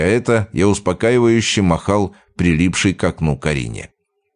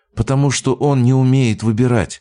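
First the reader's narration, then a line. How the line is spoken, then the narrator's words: Sighing. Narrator (Russian): вздохнула женщина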